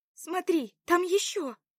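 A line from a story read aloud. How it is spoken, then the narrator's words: Shouted. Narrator (Russian): крикнула она подруге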